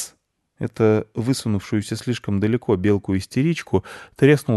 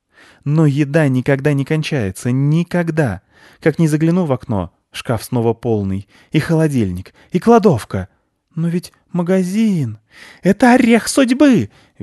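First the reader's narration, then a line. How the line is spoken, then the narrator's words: Overexcited squealing. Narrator (Russian): визжала перевозбудившаяся белка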